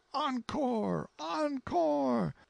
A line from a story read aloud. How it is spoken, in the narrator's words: From all around and everywhere the shout went up